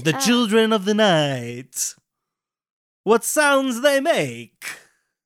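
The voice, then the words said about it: Dracula impersonation. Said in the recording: “that one impersonation of Dracula”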